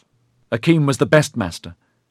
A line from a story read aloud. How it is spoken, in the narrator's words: Ediard said hotly